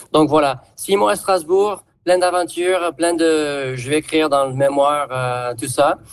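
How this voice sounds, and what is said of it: Southern French accent. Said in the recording (French): “je me disais bien que j'entendais un accent du sud”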